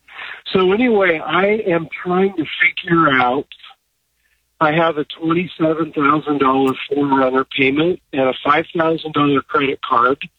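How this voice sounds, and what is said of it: Congested voice from a cold. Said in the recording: “I have a bad cold”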